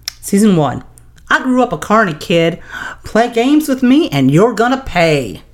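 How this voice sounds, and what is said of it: Imitates another person's voice, badly. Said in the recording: “my horrible LeeAnne voice”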